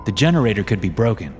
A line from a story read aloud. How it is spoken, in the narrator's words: said